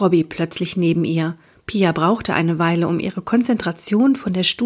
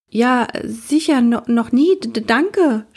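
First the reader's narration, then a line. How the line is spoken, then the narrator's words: Stammering. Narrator (German): stotterte sie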